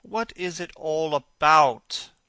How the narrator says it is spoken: cried Dorian, in his petulant way

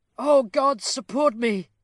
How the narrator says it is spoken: exclaimed Sybil

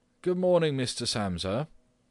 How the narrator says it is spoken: the manager called out in a friendly way

